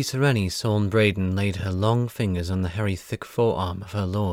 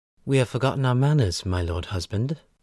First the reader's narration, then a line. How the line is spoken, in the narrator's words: she said sweetly